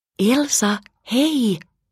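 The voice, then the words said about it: Whispering. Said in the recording (Finnish): “kuiskasi”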